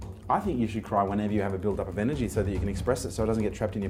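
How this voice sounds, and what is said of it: Usual voice. Nothing is said of it.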